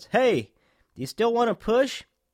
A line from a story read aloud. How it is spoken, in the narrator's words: he shouts